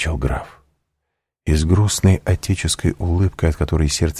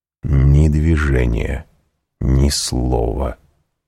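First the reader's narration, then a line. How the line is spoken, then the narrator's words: Plain. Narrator (Russian): сказал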